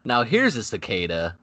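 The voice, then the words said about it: Imitates another person's voice. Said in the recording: “good ass impression”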